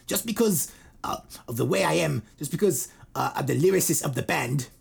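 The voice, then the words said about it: Imitates another person's accent. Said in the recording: “Why am I doing his accent? That's how he talks.”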